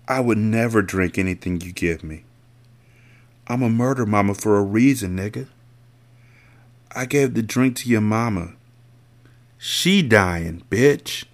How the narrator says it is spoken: she muttered

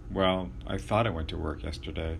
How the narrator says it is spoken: The patient looked slightly hurt, but only said quietly

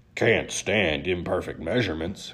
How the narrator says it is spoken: Crusty muttered

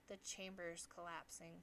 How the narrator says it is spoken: said Crom

